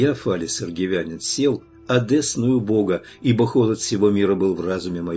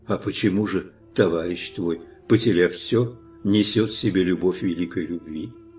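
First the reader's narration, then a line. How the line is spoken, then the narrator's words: Quiet question. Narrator (Russian): спросил меня тихо он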